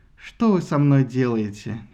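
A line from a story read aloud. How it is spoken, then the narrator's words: Heavy sigh. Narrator (Russian): тяжело вздохнул он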